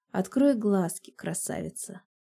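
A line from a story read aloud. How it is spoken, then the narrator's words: Quiet, hoarse voice. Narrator (Russian): Тихо говорю я севшим голосом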